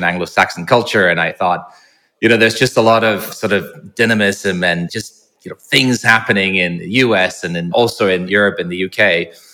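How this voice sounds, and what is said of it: Mid-Atlantic accent. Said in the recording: “I've picked up what some people say is a bit of a mid-Atlantic accent. So sometimes I get Irish, sometimes, I don't know, somewhere in between the seas.”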